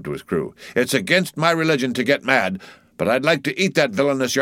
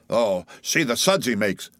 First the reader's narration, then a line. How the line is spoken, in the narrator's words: cried Flask